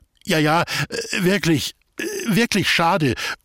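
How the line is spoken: Stammering. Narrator (German): stotterte Ludwig

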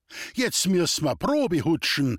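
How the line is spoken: Excited call. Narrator (German): rief der Sigi begeistert

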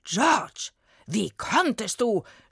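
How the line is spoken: Furious shout. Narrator (German): schrie William völlig aufgebracht

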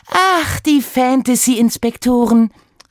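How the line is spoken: Exclaiming. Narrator (German): rief sie aus

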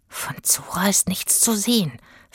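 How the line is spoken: Whispered. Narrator (German): flüsterte Itzig

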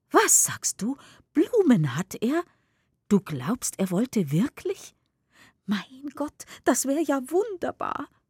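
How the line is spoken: Excited. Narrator (German): aufgeregt

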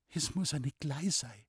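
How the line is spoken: Murmuring to oneself. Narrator (German): murmelte Loni vor sich hin

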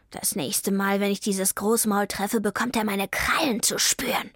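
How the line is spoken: Hissed. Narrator (German): fauchte Vivaldi

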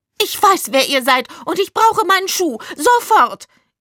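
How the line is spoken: Shrill shriek. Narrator (German): kreischte sie mit einer echt schrillen Stimme

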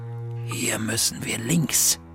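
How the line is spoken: Whisper. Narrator (German): flüsterte Bertha

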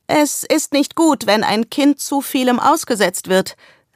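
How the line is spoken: Called from another room. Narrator (German): rief Miss Langley aus dem Schlafzimmer

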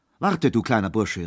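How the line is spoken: Calling out. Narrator (German): rief er

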